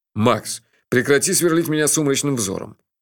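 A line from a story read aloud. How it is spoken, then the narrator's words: Grumbling. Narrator (Russian): проворчал он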